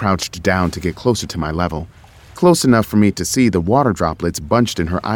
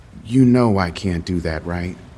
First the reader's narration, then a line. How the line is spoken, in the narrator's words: She said it so calmly, as if I'd asked the impossible of her